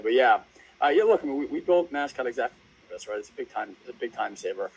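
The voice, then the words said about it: Raw, strained voice. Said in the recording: “my voice is a little raw today too, so we're both battling voice issues today”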